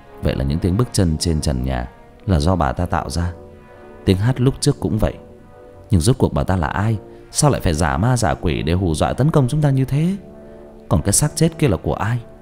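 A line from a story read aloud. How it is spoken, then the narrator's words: Soft quiet voice. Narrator (Vietnamese): Vũ khẽ nói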